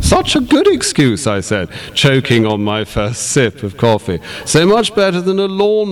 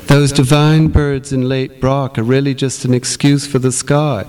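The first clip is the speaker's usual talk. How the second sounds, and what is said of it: Simpering affected voice. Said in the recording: “put on a simpering voice.”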